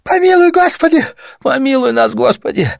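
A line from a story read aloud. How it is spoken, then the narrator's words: Woman's moan. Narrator (Russian): застонал еще другой, женщина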